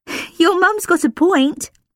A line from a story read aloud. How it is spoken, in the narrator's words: Lilia agreed, giggling